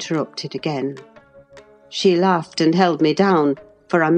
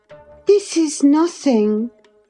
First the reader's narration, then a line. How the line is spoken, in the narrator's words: cried she